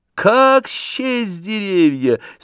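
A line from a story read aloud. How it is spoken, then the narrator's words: Laughing, cheering up friend. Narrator (Russian): смеясь, сказал Степан Аркадьич, все желая вывести приятеля из его дурного расположения духа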